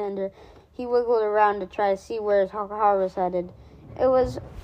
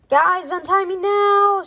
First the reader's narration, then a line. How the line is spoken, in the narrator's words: shouted Alexander